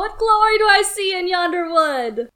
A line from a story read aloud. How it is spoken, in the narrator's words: Raoul called, mocking